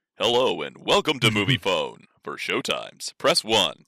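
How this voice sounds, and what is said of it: Automated movie phone announcer voice. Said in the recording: “That was my movie phone voice”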